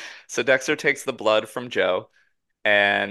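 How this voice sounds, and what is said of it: Usual voice. Nothing is said of it.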